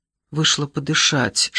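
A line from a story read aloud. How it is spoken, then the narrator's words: Whispered. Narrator (Russian): шепнула ей Келли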